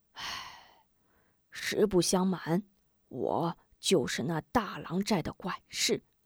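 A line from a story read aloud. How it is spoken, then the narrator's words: Old man sighing. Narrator (Chinese): 老者叹气道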